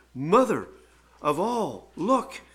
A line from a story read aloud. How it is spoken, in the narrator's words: he is shocked, and he gasps, and he says